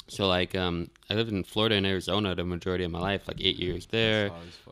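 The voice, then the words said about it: New York–Florida hybrid American accent. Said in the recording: “I have this like New York, Florida hybrid accent”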